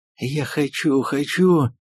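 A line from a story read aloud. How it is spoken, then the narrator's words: Hoarse wheezing. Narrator (Russian): хрипела она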